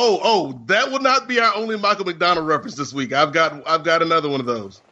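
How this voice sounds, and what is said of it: Usual voice. Nothing is said of it.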